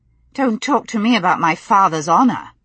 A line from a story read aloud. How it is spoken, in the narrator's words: she said sharply